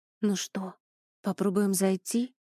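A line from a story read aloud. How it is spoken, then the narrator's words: Whispered question. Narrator (Russian): шепотом спросила Эля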